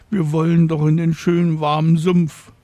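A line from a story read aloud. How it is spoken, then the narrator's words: Sobbing. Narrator (German): schluchzen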